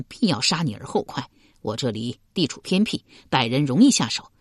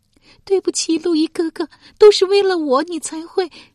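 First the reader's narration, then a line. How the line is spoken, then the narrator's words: Crying. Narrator (Chinese): 郭丽哭道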